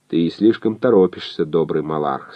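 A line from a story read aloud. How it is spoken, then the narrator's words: Calm. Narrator (Russian): сказал спокойно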